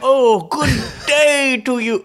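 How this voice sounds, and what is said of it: Imitates another person's voice. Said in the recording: “sound Joey like Graceffa. Joey Graceffa. ... you nailed it”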